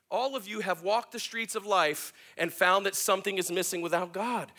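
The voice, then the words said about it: Excited yelling. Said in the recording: “I'm yelling a lot, but I get excited about this”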